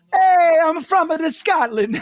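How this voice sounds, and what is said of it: Put-on Italian-American style accent. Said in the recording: “accent I try to do, I'm like, he's from Scotland. And I go right into Paisan”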